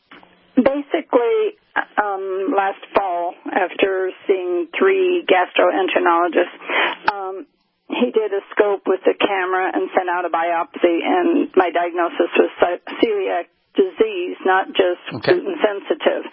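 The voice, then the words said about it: Troubled early-morning voice. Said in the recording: “Please excuse my voice. I've got some morning problems.”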